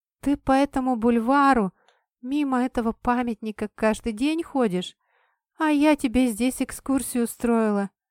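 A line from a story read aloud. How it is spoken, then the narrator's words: Silly giggle. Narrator (Russian): Девушка глупо хихикнула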